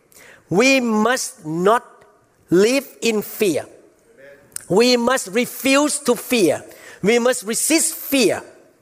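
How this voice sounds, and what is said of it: Accented English. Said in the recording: “I'm not sure you understand my accent.”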